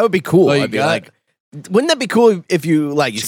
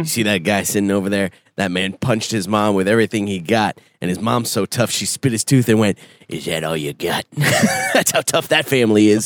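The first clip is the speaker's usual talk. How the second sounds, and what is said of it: Bar guy character voice. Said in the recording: “saying it out of a bar guy's mouth ... I do the voices”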